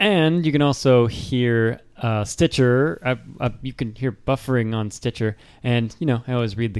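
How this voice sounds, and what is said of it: Usual voice. Nothing is said of it.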